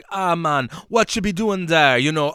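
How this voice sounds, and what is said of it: Put-on Caribbean island accent. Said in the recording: “I'm obviously putting on my island voice ... you actually put on your island voice”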